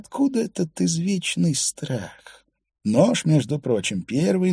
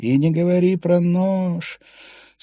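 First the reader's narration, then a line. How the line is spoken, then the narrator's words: Sighing. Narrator (Russian): Свейн Финна вздохнул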